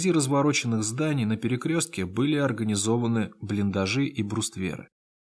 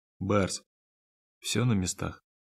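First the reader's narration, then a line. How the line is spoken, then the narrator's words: Quiet. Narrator (Russian): тихо проговорил Один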